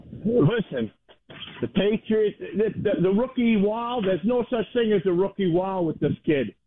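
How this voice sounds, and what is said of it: Noticeable regional accent. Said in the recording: “The accent,”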